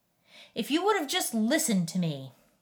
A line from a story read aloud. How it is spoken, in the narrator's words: a man's voice thundered